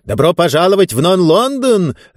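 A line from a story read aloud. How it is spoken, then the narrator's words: Joyful exclamation, strange man. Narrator (Russian): радостно воскликнул этот странный человек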